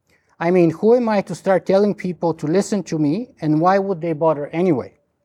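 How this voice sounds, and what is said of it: Strong Bulgarian accent in English. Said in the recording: “my strong Bulgarian accent ... I could never speak perfect English without a strange foreign accent”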